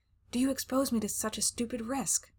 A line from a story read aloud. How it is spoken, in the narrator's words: I whispered, smiling at him amiably